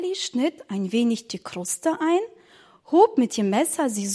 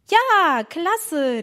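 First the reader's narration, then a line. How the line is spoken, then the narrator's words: Calling out. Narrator (German): rief Emma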